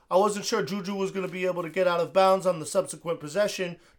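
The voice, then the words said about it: Imitates another person's voice. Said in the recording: “why do you always put on chapstick before you impersonate him?”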